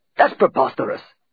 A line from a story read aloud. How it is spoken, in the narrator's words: exclaimed Igor, expelling saliva as he spoke